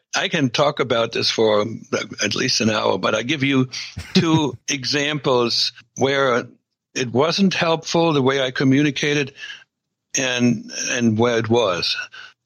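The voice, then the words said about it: Slight residual foreign accent. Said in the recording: “I still have a residual accent”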